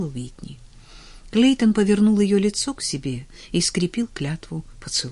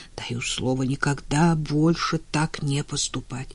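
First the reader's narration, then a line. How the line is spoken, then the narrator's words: Hoarse, humiliated, emotional mutter. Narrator (Russian): Переполненный эмоциями, которым не было выхода, он хрипло и униженно пробормотал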